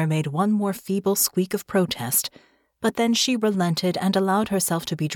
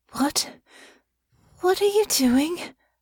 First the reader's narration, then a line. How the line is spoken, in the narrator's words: Honor said, her breath uneven, her voice shaky